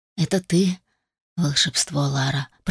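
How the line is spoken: Whisper. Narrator (Russian): прошептал Адам

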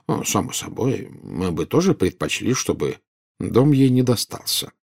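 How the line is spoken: Calm. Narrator (Russian): спокойно сказал Дамблдор

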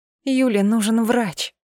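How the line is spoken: Moaning. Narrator (Russian): простонала я

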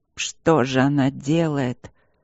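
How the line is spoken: Mage groaning. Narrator (Russian): простонал один из магов

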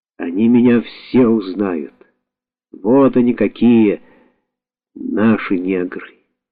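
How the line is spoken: Moved, tender mumble. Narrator (Russian): растроганно пробормотал

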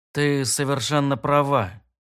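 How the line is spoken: Quiet. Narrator (Russian): тихо сказал я

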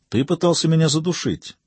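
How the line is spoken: Soft. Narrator (Russian): мягко заметил Жак

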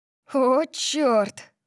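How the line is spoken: Breathy exhale. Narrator (Russian): выдохнула

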